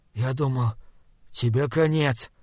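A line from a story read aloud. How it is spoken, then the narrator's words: Hoarse voice. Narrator (Russian): хриплым голосом сказал Мип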